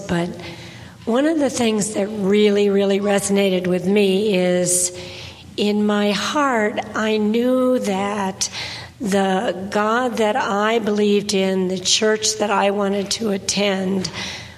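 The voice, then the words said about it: Raspy, hoarse voice. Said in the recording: “I'm going to apologize first. I'm sorry... You can understand my somewhat raspy voice”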